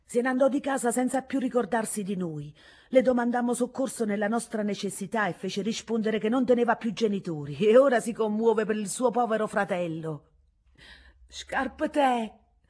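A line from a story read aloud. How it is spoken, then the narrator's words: Young woman's tender, frightened cry. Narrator (Italian): chiamava intanto con un grido dove tenerezza e spavento erano una sola cosa la giovane Vincenzina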